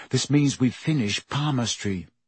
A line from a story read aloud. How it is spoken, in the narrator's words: Harry muttered back